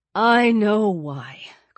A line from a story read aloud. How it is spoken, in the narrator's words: Chris said grimly